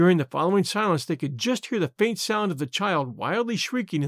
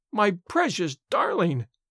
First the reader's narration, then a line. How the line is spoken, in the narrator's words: wailed the mother